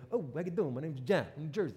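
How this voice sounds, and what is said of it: Exaggerated New Jersey accent. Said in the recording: “my New Jersey accent coming through... I escaped New Jersey without much of an accent”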